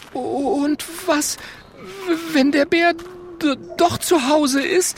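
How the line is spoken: Stuttering. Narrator (German): stottert Mathilda

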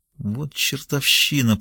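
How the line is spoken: Through gritted teeth. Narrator (Russian): процедила сквозь зубы Сакс

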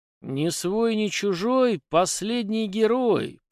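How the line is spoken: Purred under breath. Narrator (Russian): под нос промурлыкал я

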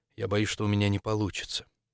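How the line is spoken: Quiet. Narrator (Russian): Максимилиан произнес тихо

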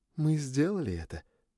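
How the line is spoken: Quiet. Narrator (Russian): тихо сказала она

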